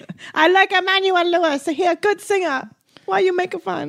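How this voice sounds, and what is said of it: Mock Asian accent. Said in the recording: “Every time you have an Asian, you make a stupid accent”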